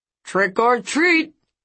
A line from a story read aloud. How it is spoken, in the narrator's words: he yelled